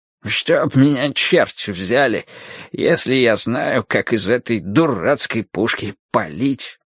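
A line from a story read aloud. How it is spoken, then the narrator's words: Muttered grumble. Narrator (Russian): проворчал себе под нос Хупер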